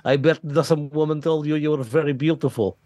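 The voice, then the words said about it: Put-on Russian accent. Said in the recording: “that was Russian. You literally did a Russian accent.”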